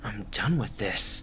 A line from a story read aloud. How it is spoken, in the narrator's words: Jack mumbled